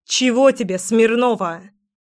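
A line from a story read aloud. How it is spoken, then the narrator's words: Barked. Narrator (Russian): Рявкнула Леська так, что Ленка споткнулась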